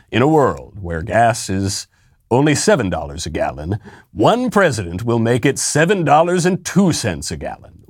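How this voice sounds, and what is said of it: Movie-trailer announcer voice. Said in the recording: “is that the guy who does the movie trailers?”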